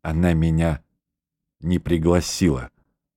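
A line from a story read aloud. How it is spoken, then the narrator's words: Hoarse. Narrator (Russian): произнес он хрипло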